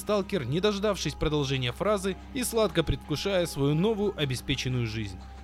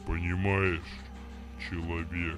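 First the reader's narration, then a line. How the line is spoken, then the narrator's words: Familiar, unpretentious bass voice. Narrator (Russian): заговорил по-свойски яркий камень, тем же басом, но совершенно другим тоном, лишенным официоза и надменности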